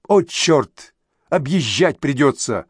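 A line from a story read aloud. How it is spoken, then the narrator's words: Through gritted teeth. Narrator (Russian): процедил Вадим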